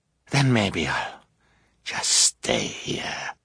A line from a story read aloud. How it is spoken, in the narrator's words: he said hoarsely